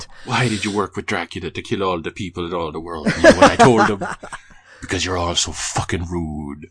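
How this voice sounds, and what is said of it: Inaccurate imitation of a character's accent. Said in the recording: “that's not Isaac's accent”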